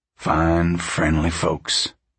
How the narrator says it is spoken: Pa said softly

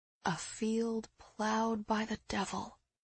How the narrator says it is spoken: I murmured

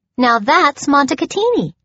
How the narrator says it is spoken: she chirped knowingly

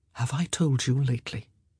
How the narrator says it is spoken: He whispered in her ear

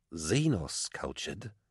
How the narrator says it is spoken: he said, his voice dropping

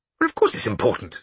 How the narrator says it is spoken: said Bruno irritably, as if she was just being deliberately difficult

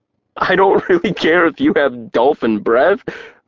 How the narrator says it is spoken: I said, my stomach still tightening with ripples of laughter

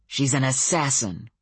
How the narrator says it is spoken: growled Samuel

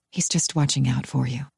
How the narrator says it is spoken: I say softly

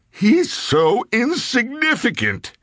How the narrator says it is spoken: Sims wailed

